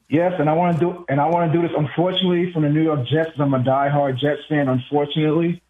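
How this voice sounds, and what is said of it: New York accent. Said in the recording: “the way you said "unfortunately" means you're from my neck of the woods. Where are you? Are you a Queens guy? ... I can hear it from your accent.”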